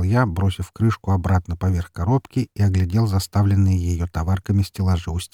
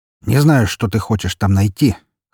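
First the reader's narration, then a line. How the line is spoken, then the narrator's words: Snort. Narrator (Russian): хмыкнул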